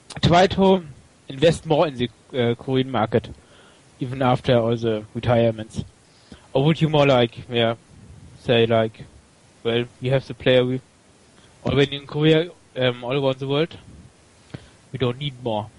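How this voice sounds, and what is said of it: German accent. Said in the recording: “Are you German? ... You are German, right? ... You have an awesome accent. ... I thought it was German at first, but then I thought it might be Indian.”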